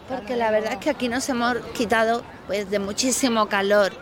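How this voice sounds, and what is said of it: Andalusian Spanish accent. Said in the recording (Spanish): “aquí en el sur hablamos con acento andaluz. Y nos lo comemos todo.”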